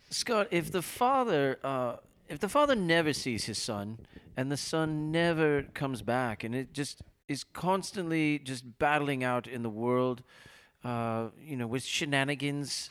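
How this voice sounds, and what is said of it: Put-on British accent. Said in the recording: “Can you ask this question in a British accent? ... is that British or Irish? ... It's a good start.”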